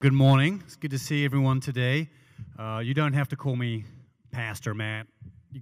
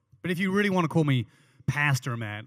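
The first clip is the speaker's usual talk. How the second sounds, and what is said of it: Put-on American accent. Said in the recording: “I'm putting on more of an American accent for that”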